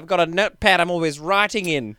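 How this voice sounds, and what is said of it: Wavering New Zealand/Australian accent. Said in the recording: “my accent was sort of like New Zealand, Australia. Like, I never quite landed them.”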